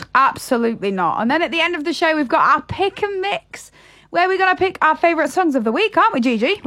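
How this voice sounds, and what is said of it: Yorkshire northern English accent. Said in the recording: “always up the north with Yorkshire. It's where I was born and bred ... I hope I never lose my accent. No matter where I go in the world, I hope I never lose my accent.”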